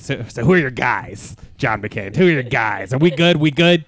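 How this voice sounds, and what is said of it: An impression. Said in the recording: “doing an impression? ... It's an impression. ... Very good.”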